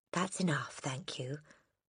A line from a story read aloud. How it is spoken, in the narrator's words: the boy murmured